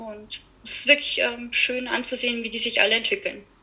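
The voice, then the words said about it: Bavarian regional German accent. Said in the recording (German): “Regensburg ... Bayern ... Was man unschwer am Akzent wahrscheinlich hört ... ah, ich hatte schon schlimmere hier”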